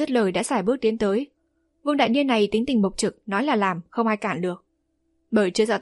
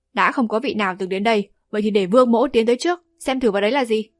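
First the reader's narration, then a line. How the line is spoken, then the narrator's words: Raised voice. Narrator (Vietnamese): Vương Đại Niên cao giọng nói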